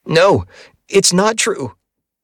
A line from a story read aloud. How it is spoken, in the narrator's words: I shouted